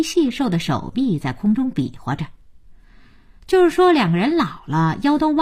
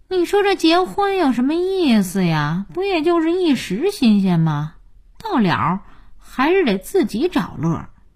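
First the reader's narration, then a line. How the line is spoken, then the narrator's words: Sighing. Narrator (Chinese): 佳音叹气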